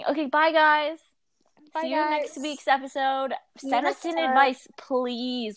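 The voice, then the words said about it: Cracking, worn-out voice. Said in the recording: “My voice is cracking. My voice is depleting.”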